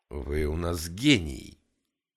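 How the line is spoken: Crude flattery. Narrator (Russian): грубо польстил гангстер

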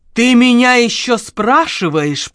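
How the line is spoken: Furious hiss. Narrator (Russian): прошипела Лика, как разъяренная гадюка

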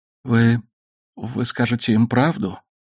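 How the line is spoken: Muffled trembling question. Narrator (Russian): спросил он глухим дрожащим голосом

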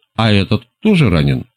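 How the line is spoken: Plain. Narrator (Russian): спросил я

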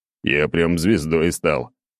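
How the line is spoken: Chuckling reply. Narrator (Russian): хохотнул в ответ

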